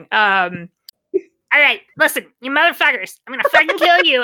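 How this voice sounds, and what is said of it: Performed character voice. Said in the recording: “I can read it in my eggs voice ... You have to demonstrate your eggs voice now.”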